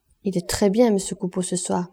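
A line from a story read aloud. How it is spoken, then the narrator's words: Murmured into ear. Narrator (French): murmura Clémence à l'oreille de Boche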